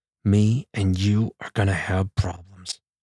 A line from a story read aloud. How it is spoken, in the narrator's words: threatened through clenched teeth